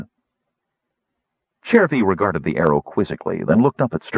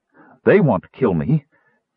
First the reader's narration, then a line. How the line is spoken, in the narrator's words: gasped the girl